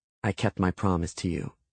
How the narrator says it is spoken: I said, still keeping my voice quiet enough so that only he could hear us

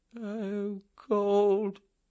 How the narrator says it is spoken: Snowden moaned

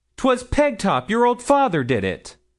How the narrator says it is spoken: cried Milly in rising wrath

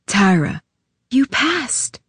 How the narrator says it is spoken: I whispered

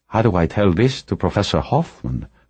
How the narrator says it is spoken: Brumado asked softly

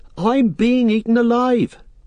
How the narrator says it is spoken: cried Pippin

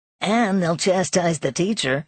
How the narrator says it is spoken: he added, with a malicious chuckle

